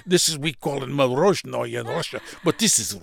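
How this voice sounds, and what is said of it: Put-on Russian accent. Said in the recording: “I can have Russian accent.”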